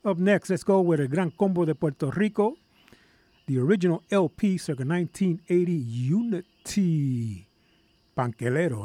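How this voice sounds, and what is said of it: Hoarse voice. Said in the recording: “little horse here. It's not like my regular radio voice”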